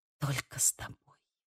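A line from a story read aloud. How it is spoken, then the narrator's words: Whispered. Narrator (Russian): прошептала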